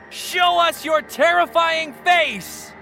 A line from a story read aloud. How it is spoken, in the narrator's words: Charles shouted